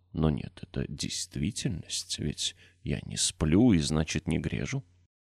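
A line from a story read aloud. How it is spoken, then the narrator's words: Whisper. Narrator (Russian): опять прошептал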